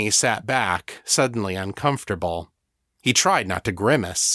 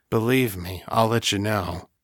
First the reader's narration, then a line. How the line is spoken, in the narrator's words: said huskily